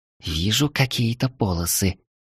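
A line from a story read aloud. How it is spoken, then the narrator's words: Mysterious whisper. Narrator (Russian): тут же загадочно прошептала Таис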